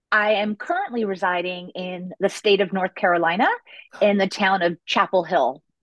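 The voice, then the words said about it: American accent with a twang. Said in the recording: “I can tell by the accent, the twang, that you're across the wet stuff.”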